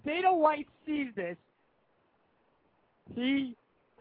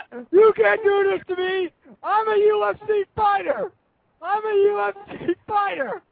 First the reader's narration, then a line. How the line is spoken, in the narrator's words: He's screaming